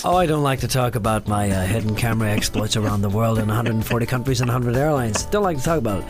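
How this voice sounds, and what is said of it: Put-on American accent. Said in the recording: “I'm doing the American accent now”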